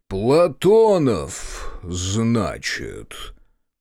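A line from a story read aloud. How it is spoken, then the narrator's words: Booming curious voice. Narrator (Russian): прогудел Терновский, с нескрываемым любопытством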